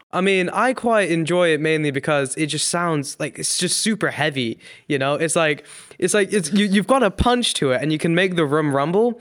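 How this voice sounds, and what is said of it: Indian-British accent that sounds American. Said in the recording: “there's a bit of an accent coming through there... I'm from India, actually... I sound American... a mix of like a British and an Indian accent in a really weird way. It's like, it sounds American”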